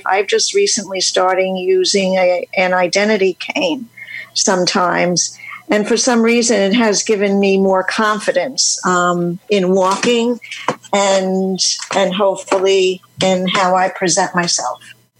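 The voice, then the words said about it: New York accent. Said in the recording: “You talk like me. Where are you from? ... I'm from New York City. ... Philadelphia, New York. We had that same accent. I knew it as soon as I heard you.”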